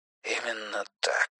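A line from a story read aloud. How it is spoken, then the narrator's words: Whispering. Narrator (Russian): прошептал Юрик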